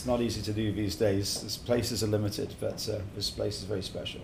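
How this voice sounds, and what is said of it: English accent. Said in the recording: “originally from England as you can tell from my uh, accent ... wonderful accent”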